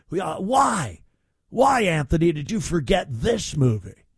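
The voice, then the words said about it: Exaggerated announcer radio voice. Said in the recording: “That's my radio voice.”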